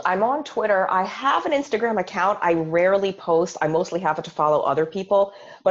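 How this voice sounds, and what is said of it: Sick, congested voice. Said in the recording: “sorry, I have a cold.”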